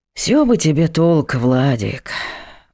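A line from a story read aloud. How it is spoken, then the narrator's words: Sighing, father. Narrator (Russian): вздохнул отец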